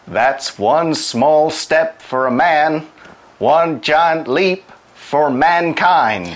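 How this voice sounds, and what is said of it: American accent, imitating Neil Armstrong. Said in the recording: “That's a very good ... American ... accent. ... Try to do a voice”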